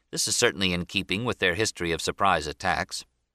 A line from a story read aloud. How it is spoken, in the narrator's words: Captain Mervyn Benyon, skipper of the West Virginia, calmly remarked to his Marine orderly